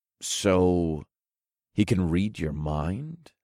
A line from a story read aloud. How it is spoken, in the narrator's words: I asked in a cautious tone